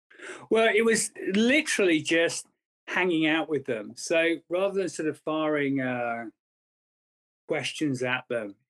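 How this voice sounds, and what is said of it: Distinctive accent. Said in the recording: “your unique accent, which everybody digs”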